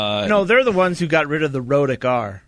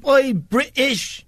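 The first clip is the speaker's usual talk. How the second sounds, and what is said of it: Put-on English accent. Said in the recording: “I like his accent, though... like, England... Yeah, he's exactly like that.”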